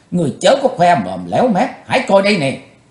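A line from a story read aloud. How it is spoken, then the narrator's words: Angry crisp laughter. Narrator (Vietnamese): Quỳnh Giao giận dữ cất tiếng cười giòn giả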